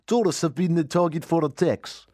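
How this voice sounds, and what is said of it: Put-on Russian accent. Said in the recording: “critique my Russian accent ... It's got to have a bit more... ... Sure you haven't mixed this up with Borat?”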